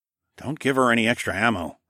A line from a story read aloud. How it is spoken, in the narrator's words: I murmured